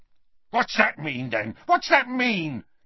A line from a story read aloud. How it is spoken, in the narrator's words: yelled the Death-Eater, suddenly violent